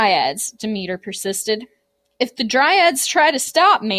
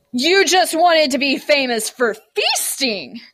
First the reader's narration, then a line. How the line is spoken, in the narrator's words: Demeter roared